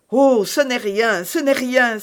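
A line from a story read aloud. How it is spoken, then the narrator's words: Exclaiming. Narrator (French): s'écria Milady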